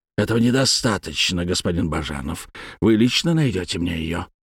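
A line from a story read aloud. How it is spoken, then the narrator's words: Near hiss. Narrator (Russian): почти прошипел Скоробогатов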